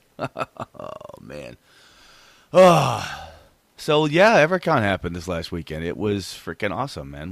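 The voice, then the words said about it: Hoarse, cracking raspy voice. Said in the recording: “I probably sound like I smoke Lucky Strikes at this point... I've got con voice, man... his voice is all cracked up”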